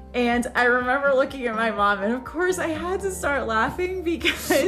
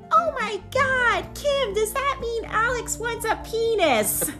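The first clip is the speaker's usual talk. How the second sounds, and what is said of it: Imitates her mother's voice. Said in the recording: “My impersonation, by the way, is spot on.”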